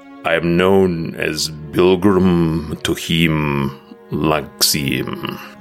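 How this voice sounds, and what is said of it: Deep reverberating character voice. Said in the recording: “this deep voice reverberates in each of your brains”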